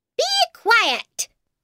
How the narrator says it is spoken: shouted the Duchess

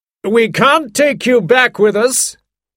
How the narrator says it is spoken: he shouted

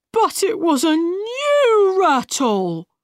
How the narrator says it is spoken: replied Tweedledum sadly

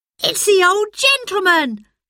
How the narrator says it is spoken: cried breathlessly

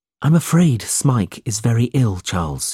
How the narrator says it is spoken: he said

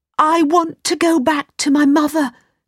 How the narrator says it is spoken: cried Aladdin

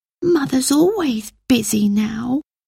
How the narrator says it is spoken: Phyllis whispered to Peter

